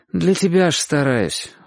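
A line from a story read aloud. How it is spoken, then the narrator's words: Sighing. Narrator (Russian): вздохнул Чик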